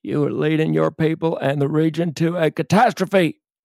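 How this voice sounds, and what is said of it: Bill Clinton impression. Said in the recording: “that fantastic Bill Clinton impersonation”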